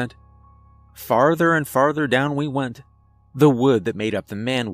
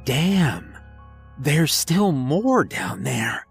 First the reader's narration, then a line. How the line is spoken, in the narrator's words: Jim said in a harsh whisper